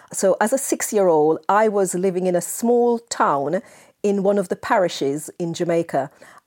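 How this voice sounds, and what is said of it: Jamaican accent. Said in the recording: “I spent my formative years in Jamaica, as you may be able to tell from my accent.”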